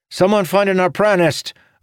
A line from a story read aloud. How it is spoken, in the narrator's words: another soldier cried